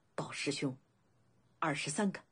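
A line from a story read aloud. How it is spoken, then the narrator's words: Disciple speaking low. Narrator (Chinese): 一个弟子低声道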